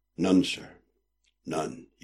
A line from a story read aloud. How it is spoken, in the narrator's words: he said quietly